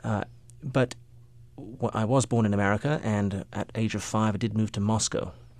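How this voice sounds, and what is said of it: English accent. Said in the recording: “I spent my formative years in England, hence the accent”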